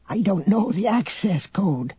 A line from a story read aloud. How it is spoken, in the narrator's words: the old man whispered conspiratorially